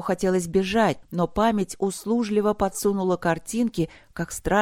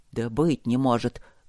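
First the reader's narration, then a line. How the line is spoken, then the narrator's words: Grumble. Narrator (Russian): буркнул он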